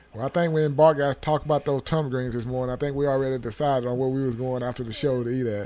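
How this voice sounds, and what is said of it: Southern Mississippi country accent. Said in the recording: “One of the most southern brothers. ... I am from the South, Mississippi. I guess that country accent can't shake it”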